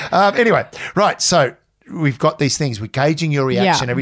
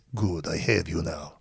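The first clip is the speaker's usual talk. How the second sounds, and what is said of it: Count Dracula-style vampire accent. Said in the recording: “Why have you now turned into Count Dracula? ... My accent keeps going.”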